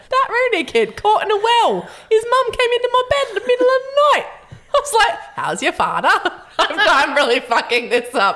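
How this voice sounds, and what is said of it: Put-on accent that falls apart. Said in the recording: “I do love it when ... does an accent because there's about a 10-second expiry. Like, she's really good at it for 10 seconds and then it falls apart so spectacularly. ... And I end up in Indian every time.”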